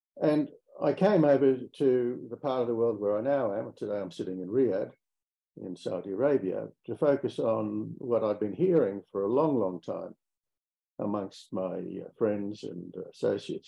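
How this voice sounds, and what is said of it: Australian accent. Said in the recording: “You might be able to tell from my accent that I come from Australia.”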